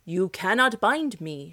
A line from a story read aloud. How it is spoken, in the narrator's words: shouted Makoma